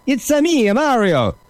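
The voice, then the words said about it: Exaggerated bad Italian accent. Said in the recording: “Bad Italian accents”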